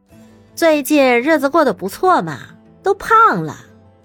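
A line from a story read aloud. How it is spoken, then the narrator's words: Laughing. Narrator (Chinese): 乐乐笑道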